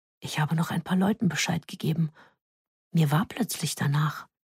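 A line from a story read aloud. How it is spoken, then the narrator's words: Whisper in ear. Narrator (German): Jakob flüsterte mir ins Ohr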